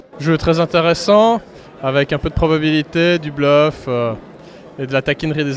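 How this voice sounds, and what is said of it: Swiss French accent. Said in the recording (French): “l'accent d' ... Suisse. La Suisse, la Suisse romande.”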